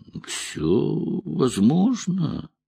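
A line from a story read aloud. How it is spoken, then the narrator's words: Drawled. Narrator (Russian): протянул он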